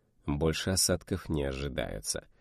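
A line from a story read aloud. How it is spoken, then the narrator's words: Grim smirk. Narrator (Russian): мрачно усмехнулся Тахмасип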